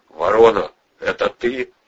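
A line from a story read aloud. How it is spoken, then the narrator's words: Plain. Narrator (Russian): сказал Ледовой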